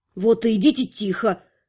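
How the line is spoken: Displeased growl. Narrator (Russian): раздалось недовольное рычание Инары

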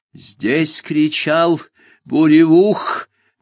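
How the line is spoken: Strange hoarse voice. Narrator (Russian): незнакомым хриплым голосом сказал Лукфи

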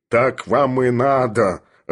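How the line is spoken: Growling. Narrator (Russian): рычал Филипп Филиппович

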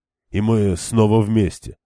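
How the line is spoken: Plain. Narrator (Russian): сказал ей Перин

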